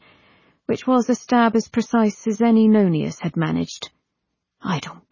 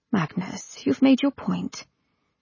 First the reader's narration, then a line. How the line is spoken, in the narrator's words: His wife murmured